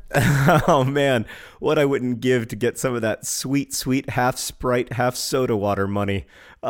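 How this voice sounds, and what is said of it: Husky voice from a cold. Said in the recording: “I have a bit of a cold, so I'm coming to you today with my husky voice.”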